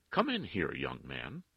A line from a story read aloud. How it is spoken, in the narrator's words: she replied, then firmly